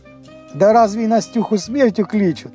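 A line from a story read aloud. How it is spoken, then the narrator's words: Chuckle. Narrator (Russian): хохотнул Геляй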